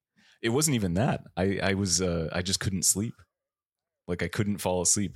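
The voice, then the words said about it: Congested voice from a cold. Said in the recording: “I've got a bit of a cold. ... I'm getting over a cold, so I sound like shit.”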